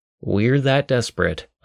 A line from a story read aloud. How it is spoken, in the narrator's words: I sighed